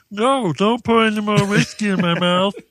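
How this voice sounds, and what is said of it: Muppet-like imitated character voice. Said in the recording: “let me do his voice ... Was he a Muppet?”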